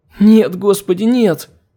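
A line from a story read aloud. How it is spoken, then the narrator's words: Anguished panicked whimper. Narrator (Russian): Надрывно заскулила Мше, изо всех сил пытаясь не потерять рассудок от охватившей ее животной паники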